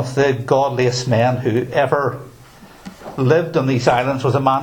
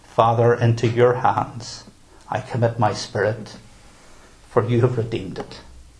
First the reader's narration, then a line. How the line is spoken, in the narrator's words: John Huss calmly replied